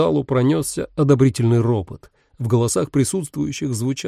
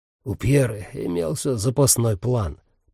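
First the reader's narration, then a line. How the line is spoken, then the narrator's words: Muttering. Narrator (Russian): пробормотал Дев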